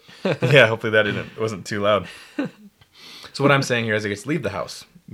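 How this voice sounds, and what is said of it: Hoarse, strained voice. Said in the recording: “Wow, I'm losing my voice.”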